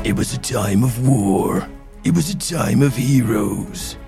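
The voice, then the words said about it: Dramatic film trailer voice. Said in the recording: “I can do my um, my film trailer voice.”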